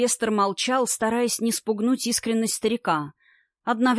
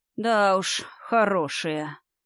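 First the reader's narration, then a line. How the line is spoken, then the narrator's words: Old man's sigh. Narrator (Russian): вздохнул дед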